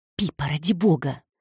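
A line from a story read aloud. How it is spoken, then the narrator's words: Hissing. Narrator (Russian): зашипела Петрина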